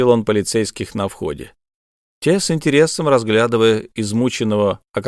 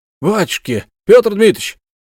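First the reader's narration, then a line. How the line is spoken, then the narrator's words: Exclaimed. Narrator (Russian): воскликнул Сивушкин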